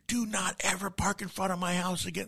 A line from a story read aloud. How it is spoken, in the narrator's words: Screaming to, at top of his lungs